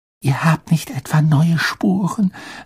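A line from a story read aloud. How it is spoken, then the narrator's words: Hushed whisper. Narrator (German): setzte sie flüsternd hinzu, damit Madame Pomfrey nichts hörte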